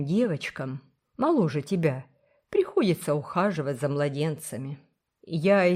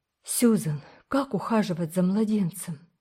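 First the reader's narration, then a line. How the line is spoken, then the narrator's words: Sad question. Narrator (Russian): спросила она печально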